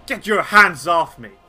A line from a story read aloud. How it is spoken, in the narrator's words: He, like, snarls back and says